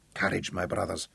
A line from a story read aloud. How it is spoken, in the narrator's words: Tungata whispered in Sindabele